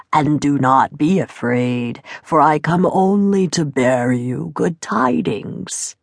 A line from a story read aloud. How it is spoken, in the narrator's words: croaked the voice